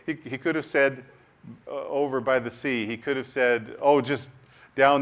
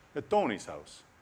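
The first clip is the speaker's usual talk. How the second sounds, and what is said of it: Put-on Italian accent. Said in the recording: “I don't know why an Italian accent.”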